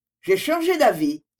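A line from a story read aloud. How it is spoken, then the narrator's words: Quick interruption. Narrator (French): interrompit vivement mademoiselle Constance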